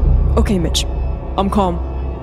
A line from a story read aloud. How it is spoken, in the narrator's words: the second voice responded in a slightly less terrified tone